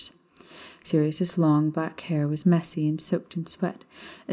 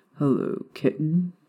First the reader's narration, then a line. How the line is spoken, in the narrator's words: Sirius mumbled